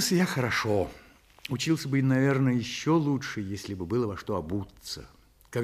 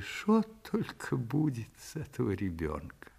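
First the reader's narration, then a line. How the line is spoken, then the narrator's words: Sad repetition. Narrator (Russian): мать грустно повторила свое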